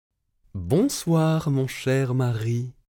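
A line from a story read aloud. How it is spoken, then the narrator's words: Plain. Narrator (French): répondit la géante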